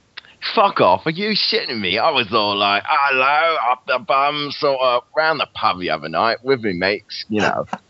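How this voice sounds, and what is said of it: Put-on Cockney accent. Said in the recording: “You do a Cockney accent ... That was good. That was really good.”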